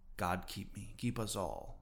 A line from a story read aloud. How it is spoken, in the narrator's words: murmured Starbuck lowly